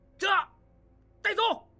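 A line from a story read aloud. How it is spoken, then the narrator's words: Loud reply. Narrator (Chinese): 金勇大声应道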